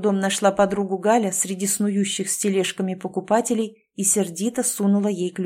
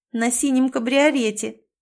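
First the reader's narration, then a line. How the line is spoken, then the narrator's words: Giggled. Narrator (Russian): хихикнула Галя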